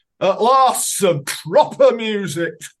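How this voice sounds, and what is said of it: Monty Python-style Yorkshire accent. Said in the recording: “adopts Monty Python-type Yorkshire accent”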